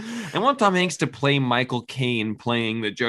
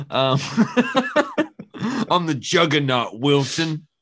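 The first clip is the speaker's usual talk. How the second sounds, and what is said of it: Imitates another person's voice. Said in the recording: “That's my Tom Hanks accent.”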